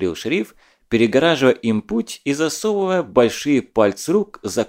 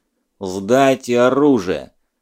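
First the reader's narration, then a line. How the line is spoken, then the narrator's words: Gloomy demand while chewing. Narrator (Russian): мрачно потребовал он, жуя крепкими челюстями кусок смолы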